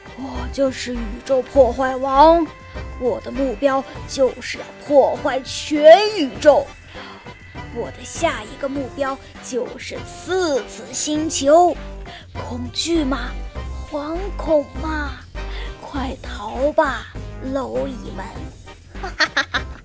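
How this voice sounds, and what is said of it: Low hoarse villain voice. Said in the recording (Chinese): “用着低沉嘶哑的声音说道”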